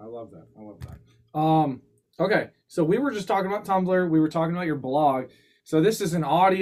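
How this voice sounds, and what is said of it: Usual voice. Nothing is said of it.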